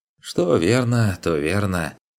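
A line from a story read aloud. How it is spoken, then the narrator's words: Sighing. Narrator (Russian): вздохнул хозяин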